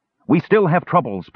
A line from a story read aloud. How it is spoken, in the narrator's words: Parian barked urgently